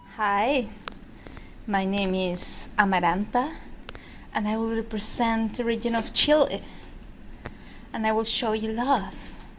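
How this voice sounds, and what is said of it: Thick Chilean Spanish accent. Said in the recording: “this particular entrant has a thick accent. They're from Chile.”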